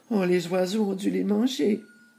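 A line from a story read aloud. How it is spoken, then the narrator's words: Sad. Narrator (French): dit tristement Gretel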